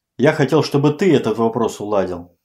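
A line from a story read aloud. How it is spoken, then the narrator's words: Snapping retort. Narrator (Russian): огрызнулся Малышев, забавляя тон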